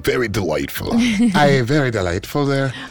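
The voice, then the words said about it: Put-on Irish accent, pirate-like. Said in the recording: “There's my Irish accent for her. ... Pirate-ish ... because it's like a pirate ... Jamaican ... accent. ... Jamaican pirate. ... Leprechaun pirate”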